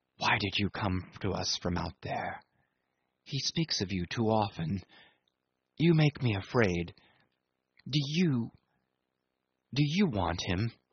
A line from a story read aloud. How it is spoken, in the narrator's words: A sort of stealthy fierceness had crept into our hurried murmurs